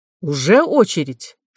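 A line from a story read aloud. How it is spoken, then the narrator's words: Angry question. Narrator (Russian): спросил он зло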